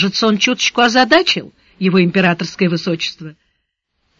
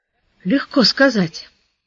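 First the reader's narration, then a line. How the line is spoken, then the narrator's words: Dejected drawl. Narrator (Russian): уныло протянул Сварог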